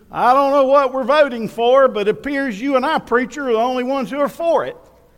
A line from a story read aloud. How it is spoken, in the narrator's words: he yelled to the preacher